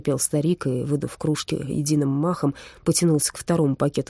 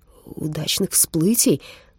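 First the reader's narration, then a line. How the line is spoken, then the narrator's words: Shuddering mutter. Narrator (Russian): пробормотал я с содроганием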